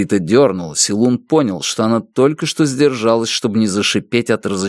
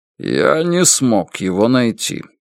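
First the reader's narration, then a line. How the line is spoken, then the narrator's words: Dry statement. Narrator (Russian): Утес сухо сказал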